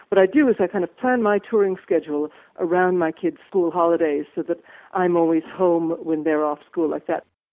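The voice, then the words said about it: American accent. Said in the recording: “Your accent is clearly not native British, so you're from the USA”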